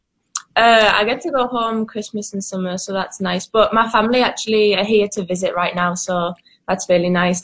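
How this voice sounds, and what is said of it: English accent. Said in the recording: “has a little bit different accent than a Nebraska accent, as she's from England”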